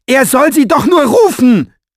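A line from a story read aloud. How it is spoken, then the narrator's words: Shouting at someone. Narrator (German): schrie an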